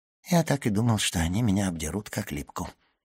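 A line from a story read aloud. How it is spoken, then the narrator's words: Muttering. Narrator (Russian): пробормотал Данглар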